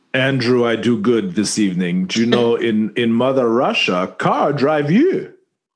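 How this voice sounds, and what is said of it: Put-on Russian accent. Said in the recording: “accent was only modestly suspicious ... usually I'm much better at the Russian accent”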